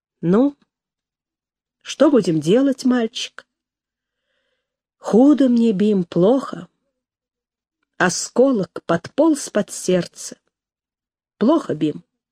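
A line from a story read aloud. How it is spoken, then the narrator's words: Quiet, weakened voice. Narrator (Russian): Иван Иванович тихо, ослабевшим голосом сказал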